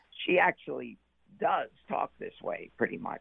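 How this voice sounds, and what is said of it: Raspy Whoopi Goldberg impression. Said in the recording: “Whoopi Goldberg has a little bit of a raspy voice ... you remind me of George Burns when you're doing it”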